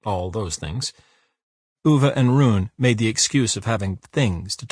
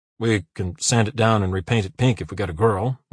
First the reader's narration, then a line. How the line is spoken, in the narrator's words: mumbled Uwe